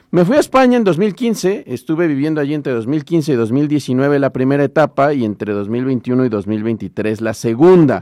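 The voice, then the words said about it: Mexican Spanish accent. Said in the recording (Spanish): “poblano español... nunca perdí el acento... no perder el acento”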